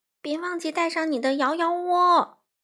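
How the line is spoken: Croaking. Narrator (Chinese): 花袜子呱呱叫道

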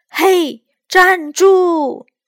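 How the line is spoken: Loud shouting. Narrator (Chinese): 黑猩猩还在大声的叫着

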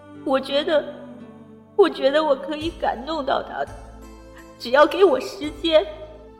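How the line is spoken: Tearful after crying. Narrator (Chinese): L 小姐狠狠的哭了一场，然后告诉我

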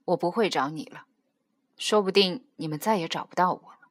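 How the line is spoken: Cold, sudden, subdued. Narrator (Chinese): 弟弟低着头沉默了一下，冷冷的突然跟他说

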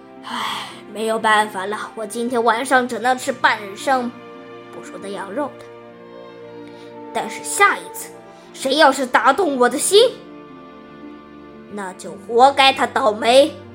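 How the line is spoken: Resigned sigh. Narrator (Chinese): 他摇着头叹气

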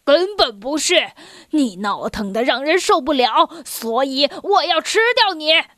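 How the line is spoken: Lion's roar. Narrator (Chinese): 狮子吼道

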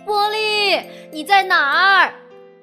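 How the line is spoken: Group calling out. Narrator (Chinese): 大家在喊他

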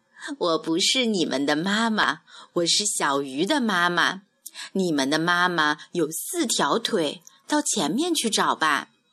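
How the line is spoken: Smiling. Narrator (Chinese): 大鱼笑着说

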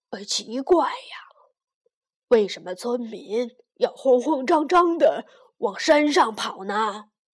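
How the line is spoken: Sighing, old woman. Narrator (Chinese): 丁婆婆叹了一口气

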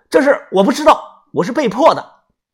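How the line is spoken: Loud, furious, heaving. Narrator (Chinese): 我脸色铁青，胸口起伏不定，大声的说道

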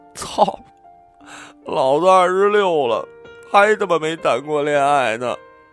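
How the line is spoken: Crying. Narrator (Chinese): 大宽哭着说

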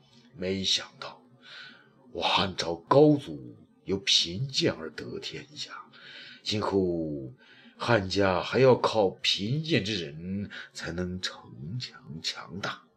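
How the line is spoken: Sighing. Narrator (Chinese): 叹了一口气说

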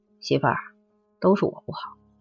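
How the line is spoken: Soft voice. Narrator (Chinese): 轻声说

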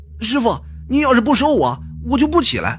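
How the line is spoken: Forceful resounding shout. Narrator (Chinese): 这个小子可能是武侠剧看多了，铿锵有力的喊道

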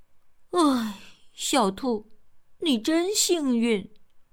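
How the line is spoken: Admiring exclamation. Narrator (Chinese): 小欢感叹道

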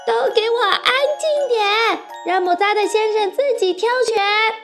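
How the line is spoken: Anxious shouting. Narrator (Chinese): 卡门急了，冲着大家喊道

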